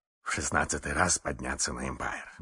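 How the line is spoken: Muttering. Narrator (Russian): бормотал мистер Адамс

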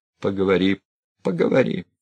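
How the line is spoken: Calm. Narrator (Russian): спокойно молвил Сергей Николаевич

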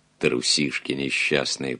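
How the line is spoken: Slapped journalist grumbling. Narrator (Russian): проворчал получивший пощечину журналист

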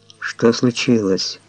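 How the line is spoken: Mumbling. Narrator (Russian): пробормотал я

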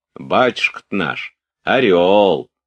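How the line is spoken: Loud nanny from doorway. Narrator (Russian): проговорила громко няня из одной двери

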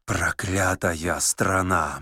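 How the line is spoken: Muttered. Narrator (Russian): бормотал Корейка

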